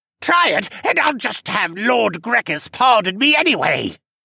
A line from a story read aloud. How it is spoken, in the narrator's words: Senna shouted as he hid behind one of the guards